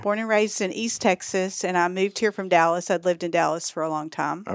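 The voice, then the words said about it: Texan accent. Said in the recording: “I'm originally from Texas, and that's the accent you hear... Sometimes it's more prevalent than others”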